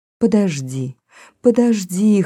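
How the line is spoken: Wanting to plead. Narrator (Russian): хотела взмолиться Пегги

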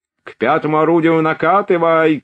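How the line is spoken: Shouting from one side. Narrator (Russian): кричали с одной стороны

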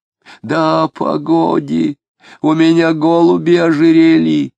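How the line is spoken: Wheezy, melancholy. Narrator (Russian): Тоскливо хрипел он

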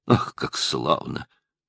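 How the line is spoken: Whisper. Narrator (Russian): прошептал мсье Пьер

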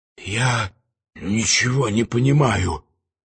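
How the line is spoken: Hoarse, choked. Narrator (Russian): хрипло, удушенно заговорила она

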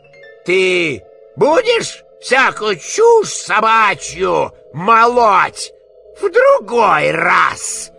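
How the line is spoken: Menacing question. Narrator (Russian): грозно спросил Фагот

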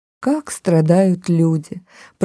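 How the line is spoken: Whispered. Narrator (Russian): прошептала она

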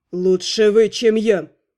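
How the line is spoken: Hissed. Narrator (Russian): прошипел его величество

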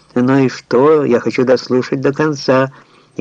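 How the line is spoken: Deafening laughter. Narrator (Russian): оглушительно захохотал

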